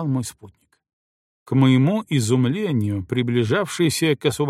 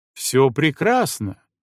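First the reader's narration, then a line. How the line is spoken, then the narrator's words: Cheerful. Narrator (Russian): весело сказал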